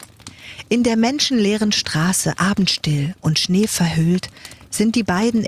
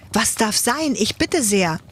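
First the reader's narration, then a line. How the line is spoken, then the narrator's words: Startled call. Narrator (German): ruft Ladislaus erschrocken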